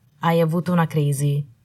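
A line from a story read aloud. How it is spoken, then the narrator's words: Calm voice. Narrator (Italian): disse con voce calma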